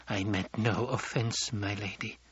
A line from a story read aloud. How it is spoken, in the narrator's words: In a low voice, Mapes said